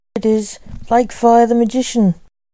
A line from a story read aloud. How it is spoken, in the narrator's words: the voice shouted